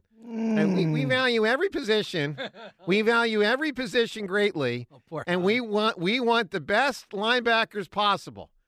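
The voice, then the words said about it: Howie Roseman impression. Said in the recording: “I do a Howie Roseman impersonation”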